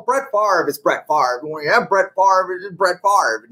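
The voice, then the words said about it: Imitates a football announcer's voice. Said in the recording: “that John Madden impersonation.”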